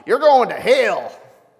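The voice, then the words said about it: Put-on Southern US accent. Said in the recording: “he would appreciate the southern accent that I gave that”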